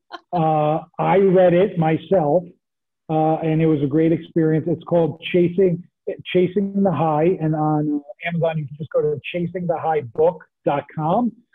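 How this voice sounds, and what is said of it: New Jersey accent. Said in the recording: “this lovely Jersey accent”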